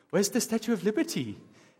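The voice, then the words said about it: Put-on French accent. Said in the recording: “that was a great French accent”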